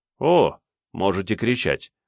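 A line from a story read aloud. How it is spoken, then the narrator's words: Cold, smiling. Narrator (Russian): холодно улыбнулся светловолосый мужчина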